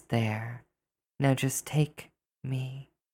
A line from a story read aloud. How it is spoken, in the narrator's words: she sighs and says